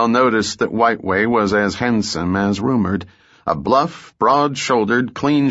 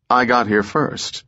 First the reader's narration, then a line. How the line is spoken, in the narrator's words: said Belle